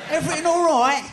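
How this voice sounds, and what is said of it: Poor put-on Cockney accent. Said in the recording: “Can you do a Cockney accent? ... That's not very good. ... You trying to do my accent? That's awful.”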